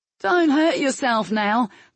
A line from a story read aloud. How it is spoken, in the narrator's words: the Pagori was shouting in a patronizing voice